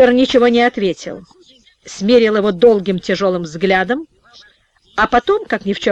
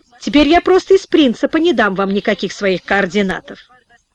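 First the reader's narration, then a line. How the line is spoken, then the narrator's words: Snorted. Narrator (Russian): хмыкнул компьютерщик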